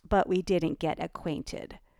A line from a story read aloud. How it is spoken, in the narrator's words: shot back Ellie, adding icily